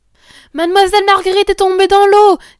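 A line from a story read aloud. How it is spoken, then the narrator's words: Women shouting. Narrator (French): criaient les bonnes femmes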